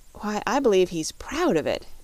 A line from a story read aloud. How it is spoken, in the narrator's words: exclaimed Dorothy